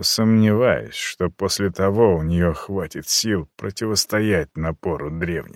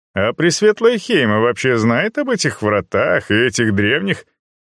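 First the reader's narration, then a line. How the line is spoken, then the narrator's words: Laughing. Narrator (Russian): Советник рассмеялся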